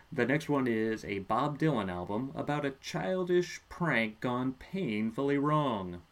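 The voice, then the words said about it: Comedic character voice. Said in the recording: “I did that in my Neil Hamburger voice”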